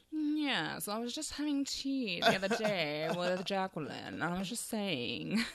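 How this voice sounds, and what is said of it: Put-on posh British accent. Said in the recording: “posh, like kind of posh girl ... Really posh British”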